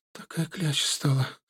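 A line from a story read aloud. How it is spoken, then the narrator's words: Upset complaining. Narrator (Russian): расстроенным голосом жаловалась она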